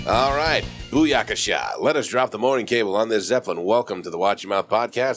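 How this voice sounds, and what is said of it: Congested, sore-throated voice. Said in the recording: “as you can probably tell by my voice, I am getting over some shit. The post-nasal drip, sore throat, really just fun noises in the morning.”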